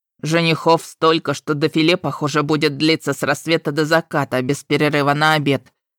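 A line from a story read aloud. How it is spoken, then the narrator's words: Grumbling. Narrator (Russian): ворчала Палал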